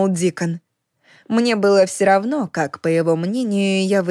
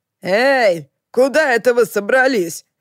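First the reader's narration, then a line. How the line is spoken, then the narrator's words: Shout from nearby. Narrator (Russian): крикнул Лохлин с берега, прозвучав довольно близко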